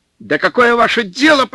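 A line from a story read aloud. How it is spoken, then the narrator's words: Nearly shouting. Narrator (Russian): почти закричал снабженец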